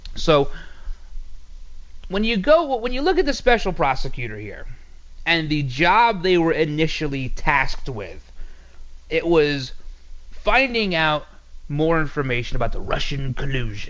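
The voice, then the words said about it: Soothing voice, New York accent. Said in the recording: “my soothing voice and my New York inflection accent”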